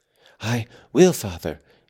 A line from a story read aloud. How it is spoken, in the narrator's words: he panted